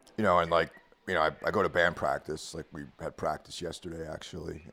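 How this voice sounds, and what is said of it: Slightly hoarse voice. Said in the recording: “I'm a little hoarse today from singing. Because, you know, if you don't sing all the time, you get a little hoarse.”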